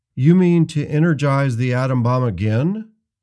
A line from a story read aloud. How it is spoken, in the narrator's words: said